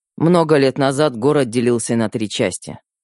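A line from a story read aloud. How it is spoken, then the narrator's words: Dry, young woman. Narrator (Russian): сухо проговорила девушка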